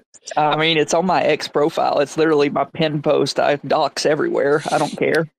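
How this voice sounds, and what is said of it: Strong Southern US accent. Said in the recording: “he's got that strong southern accent”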